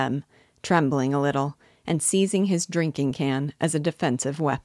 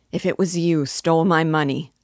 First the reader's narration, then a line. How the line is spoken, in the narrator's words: said Silas, clasping his hands entreatingly and raising his voice to a cry